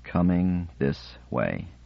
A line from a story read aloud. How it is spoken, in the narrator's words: he said slowly